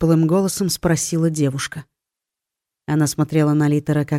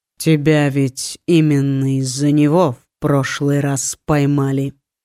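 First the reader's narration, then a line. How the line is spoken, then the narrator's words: Calm reminder. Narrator (Russian): спокойно напомнил Сокол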